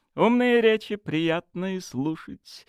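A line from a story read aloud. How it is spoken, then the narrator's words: Laughing. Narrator (Russian): рассмеялась она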